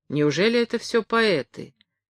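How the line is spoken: Plain. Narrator (Russian): спросил Яша Лившиц

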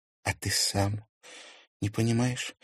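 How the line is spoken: Sad question. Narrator (Russian): грустно спросила Лиза

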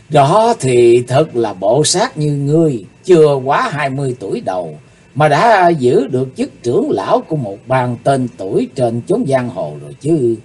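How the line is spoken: Laughing loudly. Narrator (Vietnamese): Chí Tôn cười lớn

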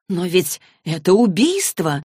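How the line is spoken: Exclaiming. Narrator (Russian): воскликнула Изабель

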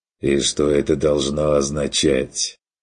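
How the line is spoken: Hoarse, slightly irritated, tired. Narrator (Russian): От охрипшего голоса, прозвучавшего чуть раздраженно и устало

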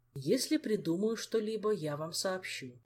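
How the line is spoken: Sighing. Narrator (Russian): вздохнул придворный маг

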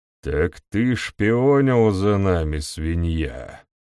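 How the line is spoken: Fairly calm voice. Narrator (Russian): Довольно спокойным голосом произнес он

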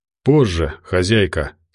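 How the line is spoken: Calm. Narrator (Russian): спокойно ответил Тихий

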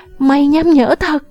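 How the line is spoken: Shouting. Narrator (Vietnamese): Phi Phi hét

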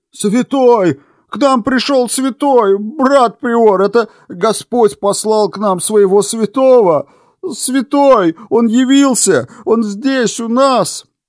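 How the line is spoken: Loud frantic yelling. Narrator (Russian): вопил брат Рос

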